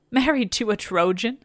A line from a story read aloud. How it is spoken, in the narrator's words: exclaims